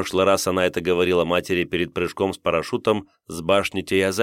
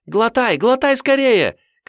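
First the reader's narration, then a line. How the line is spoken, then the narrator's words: Shouting. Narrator (Russian): кричала рядом Семаль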